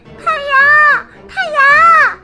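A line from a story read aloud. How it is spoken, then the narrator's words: Desperate shout. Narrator (Chinese): 朱莉实在没办法了，只能大喊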